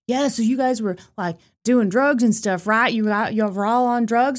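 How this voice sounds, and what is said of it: Poor Theo Von impression. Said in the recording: “terrible Theo Von impression”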